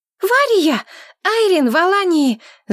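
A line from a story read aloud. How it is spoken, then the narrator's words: Shouting into phone. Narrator (Russian): закричала она в трубку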